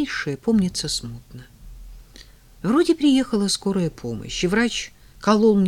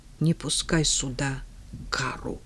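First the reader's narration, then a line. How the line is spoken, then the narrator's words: Whisper. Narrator (Russian): прошептала я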